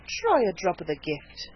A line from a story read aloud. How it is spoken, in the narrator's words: said Betty soothingly